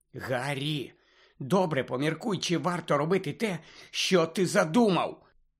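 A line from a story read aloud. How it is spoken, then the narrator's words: Whisper. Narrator (Ukrainian): Зашепотіла Герміона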